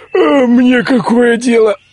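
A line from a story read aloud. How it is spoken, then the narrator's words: Grumbled while stretching. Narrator (Russian): проворчал, потягиваясь, лежавший возле него цыган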